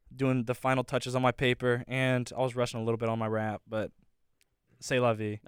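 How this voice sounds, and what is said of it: Fading, strained late-night voice. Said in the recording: “I'm starting to lose my voice since when it gets really late at night like this, it starts to disappear”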